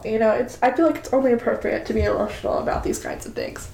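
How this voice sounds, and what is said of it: Nasal, tearful voice. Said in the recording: “I'm sure you can hear it in my voice. I'm sure you can hear me crying. ... She's got a cold. ... I am sorry if I sound super nasally”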